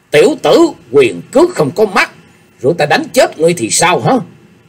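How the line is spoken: Furious, hateful old man. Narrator (Vietnamese): Triệu Kiến Hoài tức giận cành hông, lão cất giọng căm hận nói

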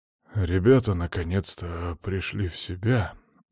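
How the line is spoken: Exhaled. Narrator (Russian): выдохнул Михаил

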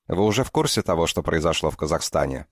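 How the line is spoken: Plain question. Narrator (Russian): спросил Ченю Листратова

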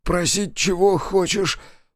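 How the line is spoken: Hoarse rasp. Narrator (Russian): прохрипел Кравчук

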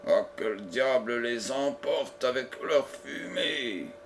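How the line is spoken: Grumbled. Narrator (French): grommela-t-il

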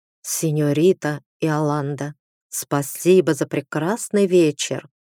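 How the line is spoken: Whisper. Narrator (Russian): прошептал

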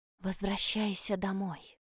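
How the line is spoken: Barely audible, like a breeze. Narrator (Russian): донеслось до меня еле слышно, словно не голос, легкий ветерок

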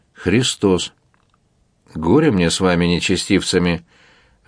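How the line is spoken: Emperor sighing. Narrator (Russian): вздохнул император

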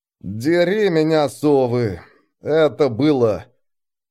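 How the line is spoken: Through gritted teeth. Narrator (Russian): Никифоров сказал сквозь зубы

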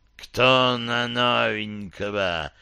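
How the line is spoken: Ghost king hissing. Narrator (Russian): прошипел король-призрак

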